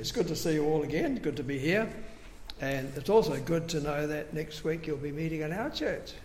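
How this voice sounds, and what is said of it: Voice still recovering from illness. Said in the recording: “excuse my voice. I'm still getting over the flu I had weeks and weeks ago”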